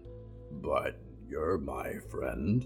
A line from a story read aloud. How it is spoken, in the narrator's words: Mort grunted